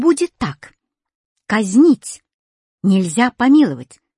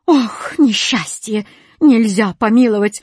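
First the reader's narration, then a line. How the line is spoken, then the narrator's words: Sobbing. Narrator (Russian): зарыдал восклицательный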